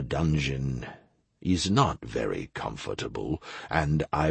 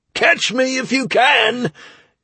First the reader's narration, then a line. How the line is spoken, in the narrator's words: yelled the rogue